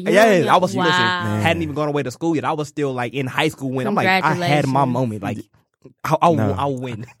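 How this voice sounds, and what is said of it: Excited, animated speech. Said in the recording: “Y'all still hear the excitement in my voice”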